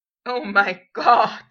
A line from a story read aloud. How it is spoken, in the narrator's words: Potter gasped eventually, wiping at his eyes